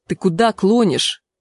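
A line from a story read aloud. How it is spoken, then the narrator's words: Angry question. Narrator (Russian): сердито спросил Треф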